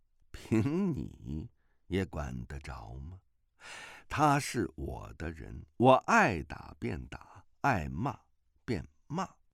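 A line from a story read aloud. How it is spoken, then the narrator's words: Sneering. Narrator (Chinese): 白世镜冷笑道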